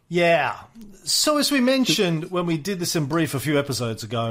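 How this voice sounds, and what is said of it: Usual voice. Nothing is said of it.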